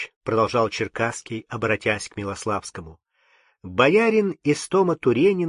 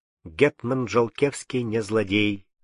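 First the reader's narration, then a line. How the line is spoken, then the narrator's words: Plain. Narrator (Russian): сказал Юрий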